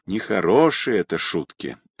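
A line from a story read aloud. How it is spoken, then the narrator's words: Sigh. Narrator (Russian): вздохнул Батраков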